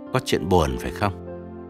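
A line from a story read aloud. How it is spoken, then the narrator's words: Lowered voice, asking. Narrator (Vietnamese): hạ giọng hỏi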